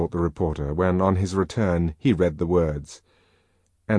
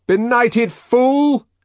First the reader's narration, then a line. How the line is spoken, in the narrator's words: shouted the man from the Fordian Science Monitor